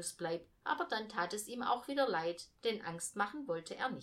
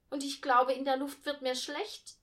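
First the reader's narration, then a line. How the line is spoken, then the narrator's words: Call. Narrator (German): rief Millie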